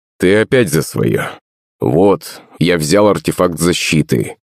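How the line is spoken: Father's mutter. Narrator (Russian): пробурчал батя

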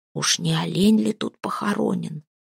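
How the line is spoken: Servant's whisper. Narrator (Russian): шепнул кто-то из челяди

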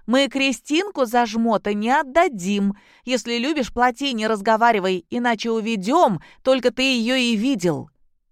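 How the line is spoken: Shouted out. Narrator (Russian): Другая девушка выкрикнула

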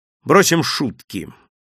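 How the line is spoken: Suddenly serious tone. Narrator (Russian): сказал он вдруг серьезным тоном

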